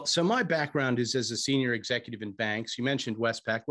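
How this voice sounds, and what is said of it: American accent. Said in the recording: “you can probably tell from my accent, I'm originally from the States.”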